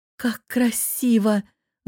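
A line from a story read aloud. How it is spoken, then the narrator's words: Delighted breathless exhale. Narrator (Russian): выдохнула восторженно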